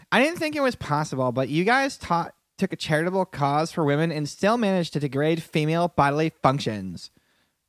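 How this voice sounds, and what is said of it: Put-on white girl voice. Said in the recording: “in my best white girl voice”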